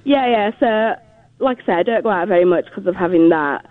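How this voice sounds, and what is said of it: Regional accent. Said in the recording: “can you say bipolar with your accent again? ... you make it sound magical.”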